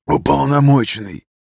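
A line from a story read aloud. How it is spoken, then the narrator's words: Hoarse. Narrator (Russian): Хриплю я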